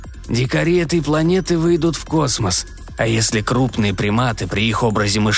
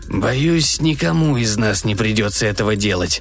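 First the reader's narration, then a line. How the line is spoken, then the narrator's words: Grim remark. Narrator (Russian): мрачно заметил главный инспектор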